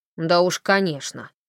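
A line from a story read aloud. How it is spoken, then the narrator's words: Irritated reply. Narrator (Russian): раздраженно ответил Холли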